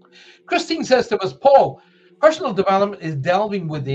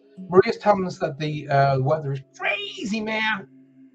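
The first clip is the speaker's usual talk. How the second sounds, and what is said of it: Watered-down American accent. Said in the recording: “my very watered down American accent”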